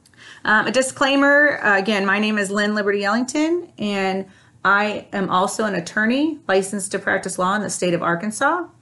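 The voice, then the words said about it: Voice starting to crack. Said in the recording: “my voice is already starting to crack”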